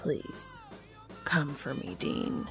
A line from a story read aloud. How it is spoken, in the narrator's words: Castiel whispers